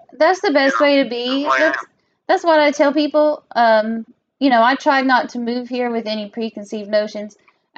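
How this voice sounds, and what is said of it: Southern American accent. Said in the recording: “As a Southerner, with, you know, someone with our accent and where we come from”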